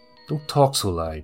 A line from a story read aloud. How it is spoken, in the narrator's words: Merrily grumbled